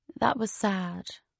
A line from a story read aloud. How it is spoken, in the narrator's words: she murmured